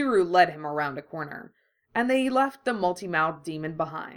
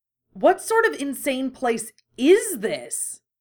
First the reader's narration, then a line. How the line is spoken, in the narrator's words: sputtered